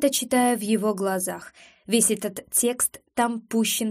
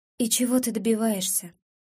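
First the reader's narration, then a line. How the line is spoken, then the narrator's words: Calm question. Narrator (Russian): спрашиваю я спокойно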